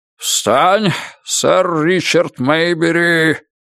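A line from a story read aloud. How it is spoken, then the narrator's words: Roaring. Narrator (Russian): проревел он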